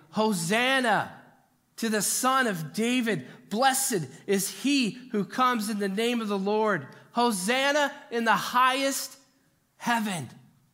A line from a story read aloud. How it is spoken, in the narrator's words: The crowds that went ahead of him and those that followed shouted